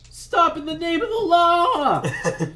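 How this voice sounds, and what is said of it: Whiny character voice with voice crack. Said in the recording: “In that whiny voice. ... there's a voice crack.”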